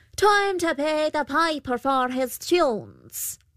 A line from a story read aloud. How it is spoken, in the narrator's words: The Pooka called out